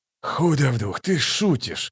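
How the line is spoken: Muttering. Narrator (Russian): пробормотал Ток

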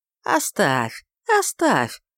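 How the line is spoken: Soft, sweetly smiling. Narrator (Russian): сказал мягко и со сладкой улыбкой

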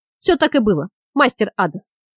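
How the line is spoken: Shout. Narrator (Russian): выкрикнул Швар

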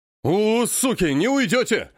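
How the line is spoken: Yelling. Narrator (Russian): вопит рыжий

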